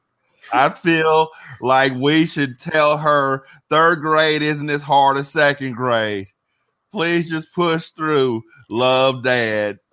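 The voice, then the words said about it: Slow Southern accent impression. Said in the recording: “that was the Nick Cage Southern accent ... It was just him talking slower ... Now I talk real slow”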